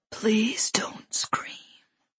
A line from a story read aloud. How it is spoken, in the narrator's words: a man said in a whisper that was, all at once, both ethereal and terrifying